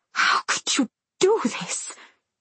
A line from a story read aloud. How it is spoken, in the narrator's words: she hisses at Maria